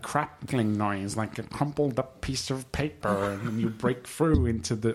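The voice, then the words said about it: Imitates another person's voice. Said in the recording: “my terrible Terrence McKenna impression”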